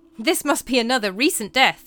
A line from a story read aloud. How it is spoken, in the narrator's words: exclaimed one of Flückinger's medical colleagues